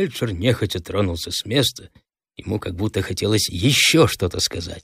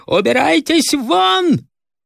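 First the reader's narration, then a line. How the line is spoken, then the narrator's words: Hate-filled, strange-voiced shout. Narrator (Russian): В груди доктора неожиданно встрепенулась вся его ненависть, и он закричал не своим голосом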